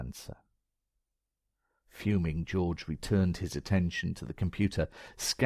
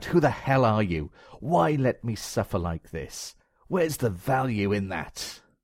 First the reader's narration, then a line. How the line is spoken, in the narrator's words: Angrily shouted out